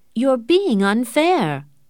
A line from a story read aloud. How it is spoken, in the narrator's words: Morris exclaimed